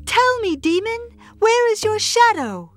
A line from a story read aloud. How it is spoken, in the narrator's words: she shouted as loudly as she could